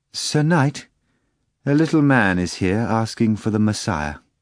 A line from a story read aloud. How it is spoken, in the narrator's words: the maid said hesitantly